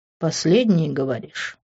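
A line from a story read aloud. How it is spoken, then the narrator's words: Dry question. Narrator (Russian): Сухо спросил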